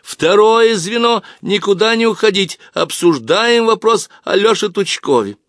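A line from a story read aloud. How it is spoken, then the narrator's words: Girl's shout. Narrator (Russian): Зоя Галкина закричала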